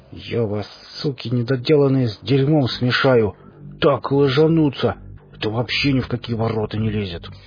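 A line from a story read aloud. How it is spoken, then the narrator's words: Through gritted teeth. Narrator (Russian): Боров процедил сквозь зубы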